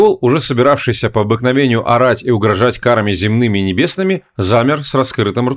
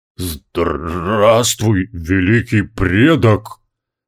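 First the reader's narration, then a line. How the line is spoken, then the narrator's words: Hoarse with emotion. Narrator (Russian): охрипшим от волнения голосом сказал Индрак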